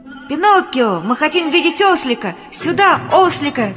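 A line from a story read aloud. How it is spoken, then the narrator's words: Children shouting with pity. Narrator (Russian): кричали дети в нижних рядах, полные жалости и сочувствия к маленькому животному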